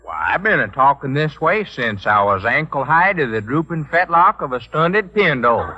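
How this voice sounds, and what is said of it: Western drawl. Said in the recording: “this Western drawl”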